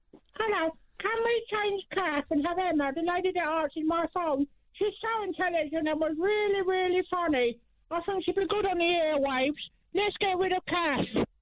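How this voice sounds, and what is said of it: Fake put-on voice, hard to understand. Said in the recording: “putting on a fake voice ... Did you understand any of that?”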